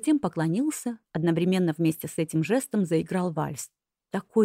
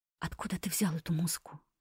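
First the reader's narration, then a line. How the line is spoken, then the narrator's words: Whispering. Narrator (Russian): прошептала я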